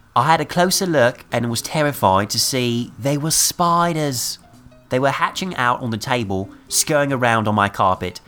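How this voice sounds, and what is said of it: Put-on British accent. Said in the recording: “I'm going to try to do this in a British accent”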